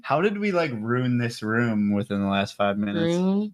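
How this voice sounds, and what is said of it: Regional accent audible on 'room'. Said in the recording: “Where his accent comes out. He says room.”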